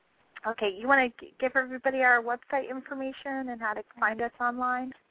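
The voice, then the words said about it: Strained voice giving out. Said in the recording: “I think my voice is giving out.”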